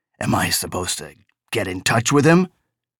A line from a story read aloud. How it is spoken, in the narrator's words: After a long time, Chuck said huskily